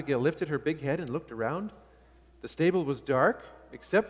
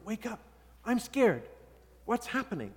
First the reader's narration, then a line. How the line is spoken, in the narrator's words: he whispered